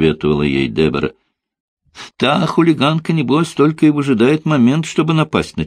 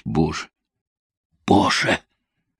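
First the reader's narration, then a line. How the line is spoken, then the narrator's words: Whisper. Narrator (Russian): Она могла лишь шептать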